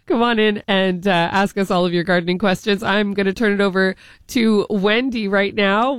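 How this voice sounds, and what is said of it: Voice sounds like a cold. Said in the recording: “as you can hear, I have a little cold.”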